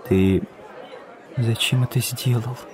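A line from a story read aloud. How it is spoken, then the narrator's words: Whispered question. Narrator (Russian): спросила она шепотом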